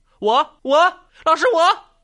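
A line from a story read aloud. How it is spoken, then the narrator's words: Eager overlapping shouts. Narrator (Chinese): 争先恐后的喊道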